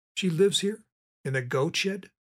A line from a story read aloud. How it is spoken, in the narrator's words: Billy asked